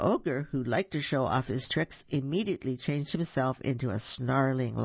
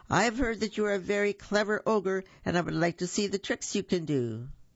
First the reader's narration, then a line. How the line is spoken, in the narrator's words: The cat bravely called out